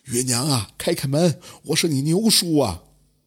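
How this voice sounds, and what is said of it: Weathered old man's voice. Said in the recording (Chinese): “一个沧桑老者的声音说道”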